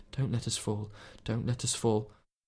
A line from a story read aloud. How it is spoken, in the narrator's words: that she found herself repeating like a litany under her breath